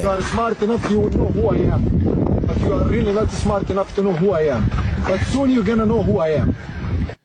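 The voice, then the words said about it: Slight foreign accent. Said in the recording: “there's a little bit of accent in his dialect. This guy is from Azerbaijan.”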